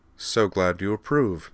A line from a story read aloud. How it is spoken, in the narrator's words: said Devlin dryly